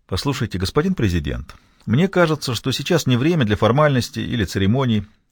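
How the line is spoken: Energetic yet gentle objection. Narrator (Russian): возразил Касерос энергично, хотя и довольно мягко

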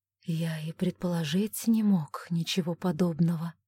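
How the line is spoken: Gentle. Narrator (Russian): мягко сказал Тайн

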